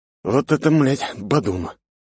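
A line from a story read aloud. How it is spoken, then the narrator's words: Miserable groan. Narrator (Russian): простонал бедный я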